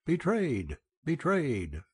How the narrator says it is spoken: like a wild beast, exclaiming

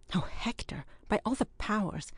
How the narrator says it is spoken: exclaimed the involuntary host

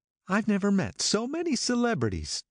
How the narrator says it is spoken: Daisy exclaimed

